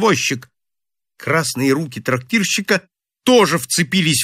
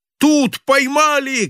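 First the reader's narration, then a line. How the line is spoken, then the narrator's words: Shouted. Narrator (Russian): крикнул он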